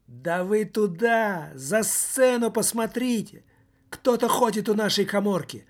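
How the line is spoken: Shout. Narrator (Russian): выкрикнул

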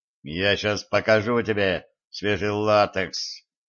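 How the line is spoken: Menacing growl. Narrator (Russian): грозно прорычал я

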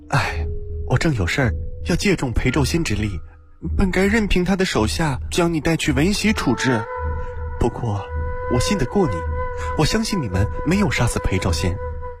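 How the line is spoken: Long sigh. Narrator (Chinese): 悠悠叹口气

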